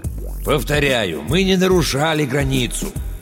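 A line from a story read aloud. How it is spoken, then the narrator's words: Calm and persuasive. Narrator (Russian): Семёныч старался говорить спокойно и убедительно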